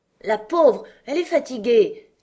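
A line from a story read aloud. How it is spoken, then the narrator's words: Queen's exclamation. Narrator (French): s'exclama la reine rouge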